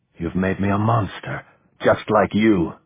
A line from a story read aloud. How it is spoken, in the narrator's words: he said bitterly, feeling himself beginning to shake again